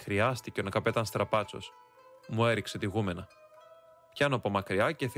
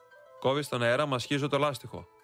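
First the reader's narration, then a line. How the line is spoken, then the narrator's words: Answered angrily. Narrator (Greek): το απαντώ θυμωμένα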